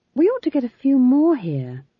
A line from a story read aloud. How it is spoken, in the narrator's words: she said sadly